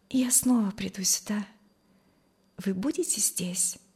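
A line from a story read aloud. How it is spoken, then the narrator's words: Quiet. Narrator (Russian): сказала она тихо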